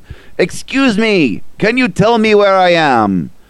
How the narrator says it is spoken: shouts down to him

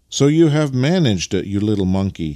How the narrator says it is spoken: he exclaimed as he caught sight of his little boy

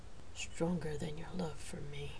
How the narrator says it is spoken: asked quietly

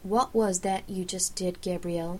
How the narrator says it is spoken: I asked evenly

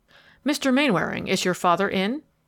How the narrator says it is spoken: the attorney inquired hastily

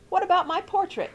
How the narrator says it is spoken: demanded Rosie loudly

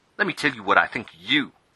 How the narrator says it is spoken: snapped Saul

